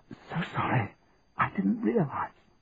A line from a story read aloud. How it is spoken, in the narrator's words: she said in a whisper